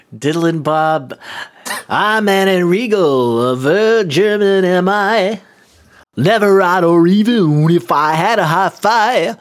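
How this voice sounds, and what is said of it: Imitates another person's voice. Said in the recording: “That's my Bob Dylan impression.”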